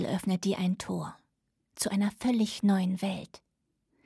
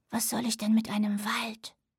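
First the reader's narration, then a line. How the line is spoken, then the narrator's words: Whisper. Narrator (German): flüsterte Willow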